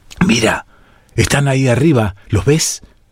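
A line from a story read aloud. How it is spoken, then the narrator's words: Whispered. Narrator (Spanish): susurró uno de los 5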